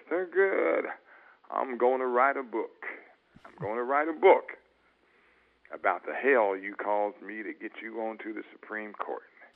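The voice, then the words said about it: Deep Southern accent, Lyndon Johnson. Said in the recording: “said in this deep Southern accent”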